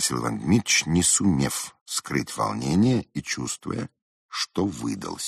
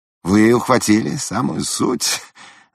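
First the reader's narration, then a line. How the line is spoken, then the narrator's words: Laughing. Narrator (Russian): засмеялся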